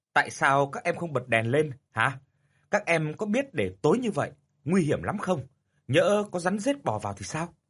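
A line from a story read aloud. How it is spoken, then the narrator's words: Angry shout. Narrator (Vietnamese): tức giận quát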